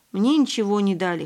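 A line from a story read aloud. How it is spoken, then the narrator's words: Snorting. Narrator (Russian): хмыкнул за рюкзаком Ваня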